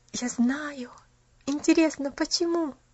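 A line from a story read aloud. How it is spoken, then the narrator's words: Soft dreamy whisper. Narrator (Russian): тихонько прошептала мечтательно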